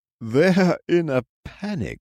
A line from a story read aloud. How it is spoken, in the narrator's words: laughed